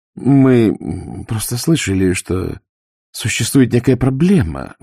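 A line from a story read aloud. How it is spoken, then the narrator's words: Forced out. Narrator (Russian): выдавила она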